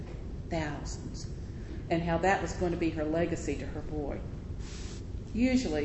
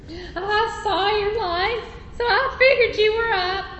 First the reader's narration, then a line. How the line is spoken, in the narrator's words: chirped Edna Simmons